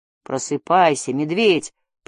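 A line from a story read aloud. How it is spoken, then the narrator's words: Mumbled. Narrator (Russian): пробормотал Джаред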